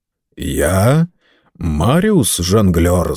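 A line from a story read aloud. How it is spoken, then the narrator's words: Sepulchral, hollow voice. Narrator (Russian): загробным голосом ответил Дэвидсон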